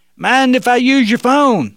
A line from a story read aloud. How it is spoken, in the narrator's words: the young man yelled out again